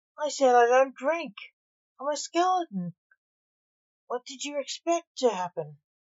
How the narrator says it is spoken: moaned

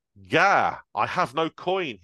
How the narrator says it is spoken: he exclaimed

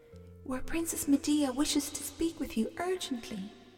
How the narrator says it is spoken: whispered the lad to Jason

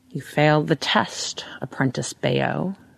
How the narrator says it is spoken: he says, in an odd, throaty voice, as though he were underwater

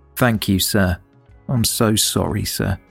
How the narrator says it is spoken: Hardy said quietly

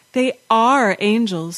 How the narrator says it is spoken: she said

